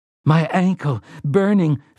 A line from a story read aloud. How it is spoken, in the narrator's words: Frank Tavery gasped